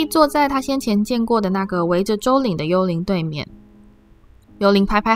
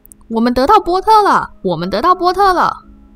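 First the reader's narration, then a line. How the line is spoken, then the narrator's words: Loud shouting. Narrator (Chinese): 卫斯理家的双胞胎兄弟大声喊着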